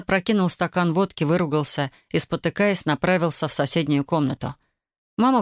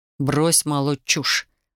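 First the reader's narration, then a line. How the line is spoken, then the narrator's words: Said through teeth. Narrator (Russian): процедил Александр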